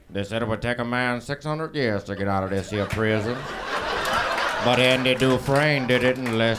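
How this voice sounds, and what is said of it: Morgan Freeman impression. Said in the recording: “I only have one impression... It's, it's Morgan Freeman's.”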